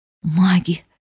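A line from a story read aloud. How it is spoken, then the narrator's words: Hoarse, choked with tears. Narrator (Russian): прохрипела я, глотая слезы, вставшие комом в горле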